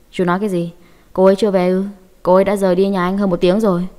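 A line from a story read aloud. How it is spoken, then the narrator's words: Drowsy, cold. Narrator (Vietnamese): Hà Văn Hạo mơ mơ màng màng, lạnh lùng nói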